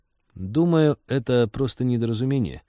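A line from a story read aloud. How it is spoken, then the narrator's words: Uncertain. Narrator (Russian): неуверенно сказал Вениамин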